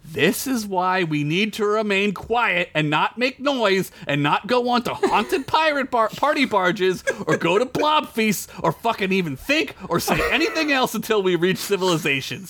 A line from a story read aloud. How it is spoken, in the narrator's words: Sid screamed